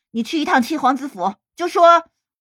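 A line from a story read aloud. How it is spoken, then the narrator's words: Stern, harsh. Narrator (Chinese): 他厉声道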